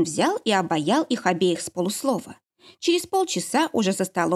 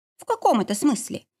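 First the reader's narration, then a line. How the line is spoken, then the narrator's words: Cheerful smirk. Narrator (Russian): весело усмехнулась Полька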